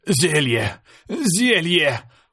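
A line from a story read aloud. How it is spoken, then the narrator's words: Wheezing croak. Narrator (Russian): прохрипел я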